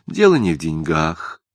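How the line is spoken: Sad young woman. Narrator (Russian): грустно сказала девушка

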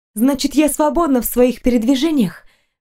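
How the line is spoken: Breathless question. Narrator (Russian): выдохнула

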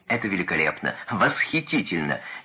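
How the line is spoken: Loud laughter. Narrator (Russian): Ленин захохотал

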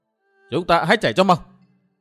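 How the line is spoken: Sudden loud shout. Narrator (Vietnamese): Thủy Minh Hoàn bỗng hét to

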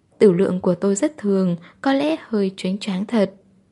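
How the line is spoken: Shy, smiling. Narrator (Vietnamese): Phương Thần chỉ cúi xuống mỉm cười, dáng vẻ thẹn thùng

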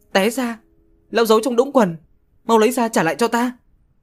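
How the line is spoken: Angry shouting. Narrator (Vietnamese): Trác Thanh Chân tưởng thật quát tháo Nhạc Tự Trương

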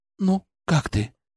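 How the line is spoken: Quiet question. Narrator (Russian): тихо спросила

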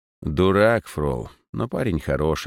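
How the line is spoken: Sighing. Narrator (Russian): вздохнул

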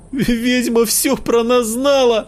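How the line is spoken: Shouted. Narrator (Russian): закричала Ксюша

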